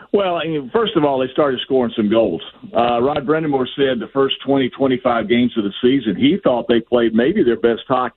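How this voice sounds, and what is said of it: Southern American accent. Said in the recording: “a guy with a Southern accent talk about hockey ... Your Southern accent”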